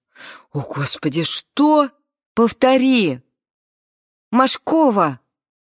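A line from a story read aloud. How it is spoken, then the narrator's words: Loud. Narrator (Russian): громко сказала Кларуся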